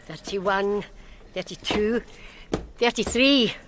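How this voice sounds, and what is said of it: Silly put-on voice. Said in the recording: “stupid voice”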